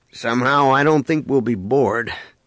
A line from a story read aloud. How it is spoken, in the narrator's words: Han remarked dryly